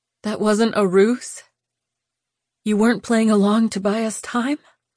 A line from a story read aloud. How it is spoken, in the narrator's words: her voice broke